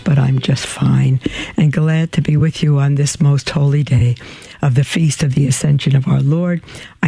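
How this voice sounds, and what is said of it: Slightly hoarse voice. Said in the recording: “my voice sounds like it, so little hoarse”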